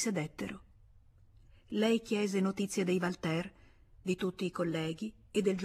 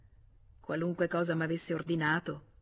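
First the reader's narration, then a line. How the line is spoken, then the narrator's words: Plain. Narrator (Italian): rispose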